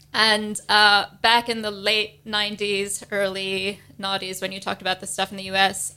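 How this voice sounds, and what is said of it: American accent. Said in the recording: “if you couldn't tell from my accent, I'm from the States.”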